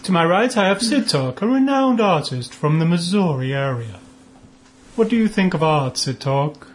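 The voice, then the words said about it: Put-on pretentious art-talk accent. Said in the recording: “the stupid accent, in reference to someone who would like to discuss art”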